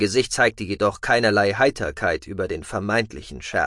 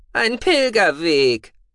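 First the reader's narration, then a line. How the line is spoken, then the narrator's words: Groan. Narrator (German): stöhnte Gucki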